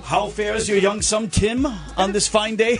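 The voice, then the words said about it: Put-on accent. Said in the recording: “a little soundbite with an accent”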